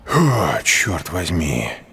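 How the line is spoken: Exhaled. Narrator (Russian): выдохнул Экельс

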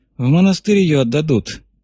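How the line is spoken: Gloomy, sniffing. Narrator (Russian): мрачно заметил Кибалка, засопев носом

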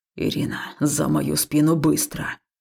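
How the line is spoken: Breathless exhale. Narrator (Russian): выдохнул Хаул

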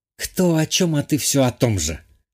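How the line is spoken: Hissed. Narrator (Russian): подруга прошипела

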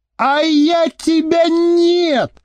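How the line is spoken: Furious shriek. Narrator (Russian): завизжала Маша

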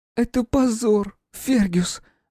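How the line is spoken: Sobbing. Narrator (Russian): рыдала принцесса

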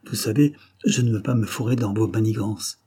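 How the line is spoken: Thoughtful murmur. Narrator (French): murmura Antoine, qui avait l'air de réfléchir

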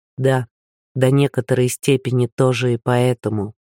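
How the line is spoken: Quiet and hurried. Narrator (Russian): сказал он негромко и торопливо

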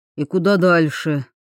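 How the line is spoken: Grumbling. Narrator (Russian): проворчал он

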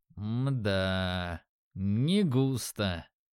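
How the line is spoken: Thoughtful drawl. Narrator (Russian): задумчиво протянул

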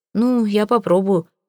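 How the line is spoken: Muttered grumble. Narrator (Russian): буркнул он

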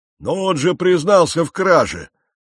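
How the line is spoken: Big-bellied man roaring. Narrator (Russian): взревел в толпе мужчина с таким огромным пузом

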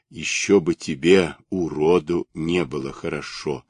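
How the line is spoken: Plain. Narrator (Russian): сказала бабочка

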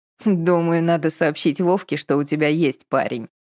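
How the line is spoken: Snorting. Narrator (Russian): фыркнула Виктория

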